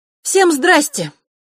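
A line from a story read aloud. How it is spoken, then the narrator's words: Loud, with silly smile. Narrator (Russian): громко сказала она, и губы как-то сами собой расплылись в глупой улыбке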